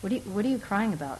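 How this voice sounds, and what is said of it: Cold, unfeeling voice. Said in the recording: “spoke in a cold voice.”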